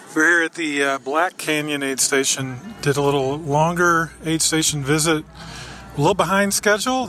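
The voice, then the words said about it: Tired, slurred speech. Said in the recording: “you can tell how tired I am. I'm slurring my words.”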